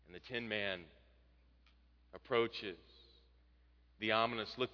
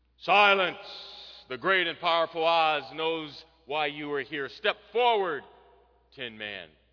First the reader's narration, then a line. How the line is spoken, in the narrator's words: the Wizard booms